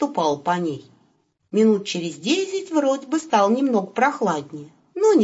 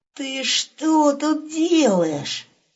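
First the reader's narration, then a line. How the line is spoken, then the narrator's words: Menacing hoarse rasp. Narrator (Russian): Грозно прохрипел он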